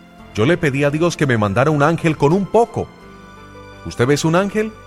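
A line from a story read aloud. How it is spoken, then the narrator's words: Wife shouting from another room. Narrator (Spanish): Su esposa gritó desde la cocina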